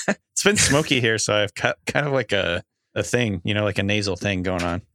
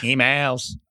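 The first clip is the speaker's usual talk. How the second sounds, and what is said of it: Exaggerated nasal delivery. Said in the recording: “You went extra nasally... weird voice”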